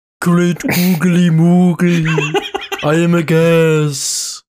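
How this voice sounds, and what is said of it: Gas character voice. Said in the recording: “What does your gas voice sound like?”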